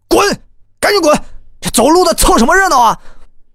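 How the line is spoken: Roaring. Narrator (Chinese): 这警察对我大吼啊

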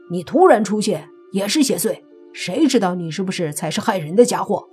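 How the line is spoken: Loud roar. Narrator (Chinese): 那主角也大喝起来，说道

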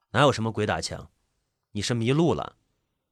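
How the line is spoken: Cold flat voice. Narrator (Chinese): 那个人仍然是面无表情，冷冷的说道

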